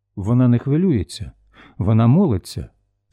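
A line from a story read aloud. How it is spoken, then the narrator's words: Calm reply. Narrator (Ukrainian): спокійно відказала Рая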